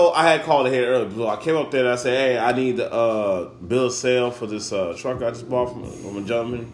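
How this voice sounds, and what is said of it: Usual voice. Nothing is said of it.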